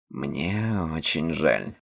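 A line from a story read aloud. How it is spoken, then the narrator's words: Mumble. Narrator (Russian): пробормотал Нил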